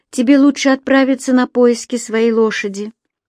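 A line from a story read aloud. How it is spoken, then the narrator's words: Muttered. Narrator (Russian): пробормотала она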